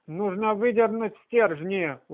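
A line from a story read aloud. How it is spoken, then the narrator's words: Exclaiming. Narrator (Russian): воскликнула она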